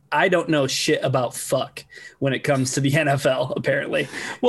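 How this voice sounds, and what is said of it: Imitates a TV character's voice. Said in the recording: “in my best Ruth from Ozark voice”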